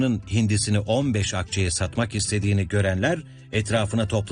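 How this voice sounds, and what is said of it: Usual voice. Nothing is said of it.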